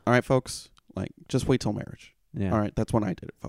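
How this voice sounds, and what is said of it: Bad Ben Shapiro impression. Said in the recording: “it's not a good Ben Shapiro impression ... It's a bad one.”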